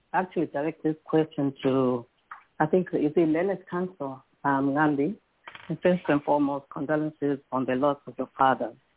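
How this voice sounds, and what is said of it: Sore-throated, hoarse voice. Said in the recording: “I have a sore throat”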